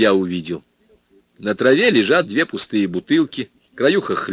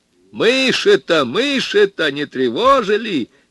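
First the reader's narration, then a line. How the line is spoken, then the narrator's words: Cheerful shout. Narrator (Russian): весело крикнул бригадир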